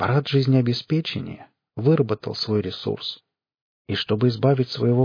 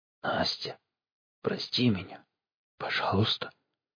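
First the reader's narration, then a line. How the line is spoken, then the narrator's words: Barely audible whisper. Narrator (Russian): она едва слышно прошептала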